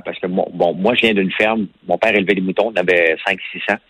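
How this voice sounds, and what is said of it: Strong Québécois French accent. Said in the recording (French): “accent québécois tranché”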